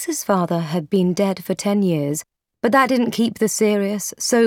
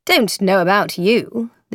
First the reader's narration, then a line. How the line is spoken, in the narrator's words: the other man said dryly